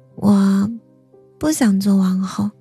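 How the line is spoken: Soft, smiling. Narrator (Chinese): 她笑眯眯的，轻声道

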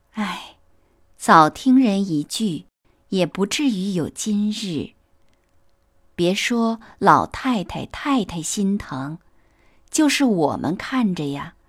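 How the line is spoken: Relieved sigh. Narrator (Chinese): 宝钗……心中也宽慰了些，便点头叹道

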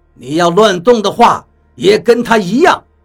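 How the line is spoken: Cold. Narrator (Chinese): 雷森冷冷地说道

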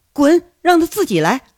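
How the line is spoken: Furious, resentful. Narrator (Chinese): 韩雪一听是怒火中烧啊，恨恨地说着

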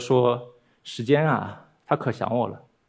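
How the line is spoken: Quiet murmur to herself. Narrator (Chinese): 她有点像自言自语的小声在说

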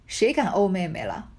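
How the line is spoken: Laughing through tears. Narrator (Chinese): 宝玉一面拭泪笑道

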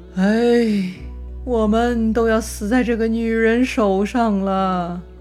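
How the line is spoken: Long heavy sigh. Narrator (Chinese): 李儒仰天长叹

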